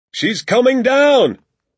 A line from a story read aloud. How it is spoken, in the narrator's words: my father shouted